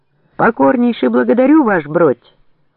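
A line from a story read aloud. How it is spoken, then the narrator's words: Barking soldier's shout. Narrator (Russian): гаркнул солдат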